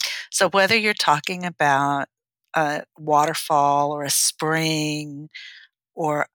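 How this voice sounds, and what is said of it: Usual voice. Nothing is said of it.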